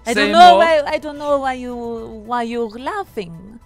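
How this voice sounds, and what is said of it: Put-on Russian accent. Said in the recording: “I knew you'd go Russian. ... why are you mocking my accent?”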